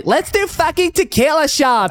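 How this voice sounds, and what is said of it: Valley Girl voice impression. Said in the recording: “is that your American impression? ... That's a Valley Girl impression.”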